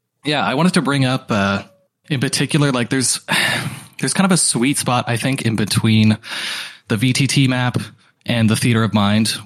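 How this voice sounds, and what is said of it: Smooth late-night radio voice. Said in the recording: “Nice late-night voice you got there. ... I've been told I have a podcast voice”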